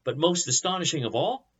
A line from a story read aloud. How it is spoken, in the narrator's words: Nebuchadnezzar exclaimed